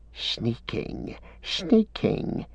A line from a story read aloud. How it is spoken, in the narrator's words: he hissed